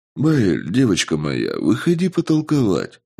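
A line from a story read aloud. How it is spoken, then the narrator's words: Soft. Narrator (Russian): мягко сказал я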